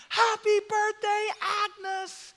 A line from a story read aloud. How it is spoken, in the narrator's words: They all shouted and screamed